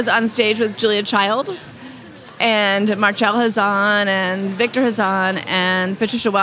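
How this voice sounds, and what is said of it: Usual voice. Nothing is said of it.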